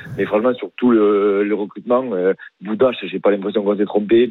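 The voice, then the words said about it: Southern French accent. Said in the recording (French): “t'as pas vraiment un accent du Rhône ... j'ai l'accent du sud”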